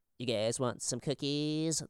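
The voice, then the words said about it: Imitates another person's voice. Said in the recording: “That was a great impersonation.”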